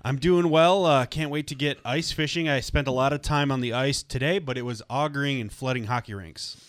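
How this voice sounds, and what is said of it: Lower, rough voice still recovering. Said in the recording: “you sounded like crap ... I've sounded like crap for 4 weeks ... my voice hasn't come back. Maybe it's permanently lower.”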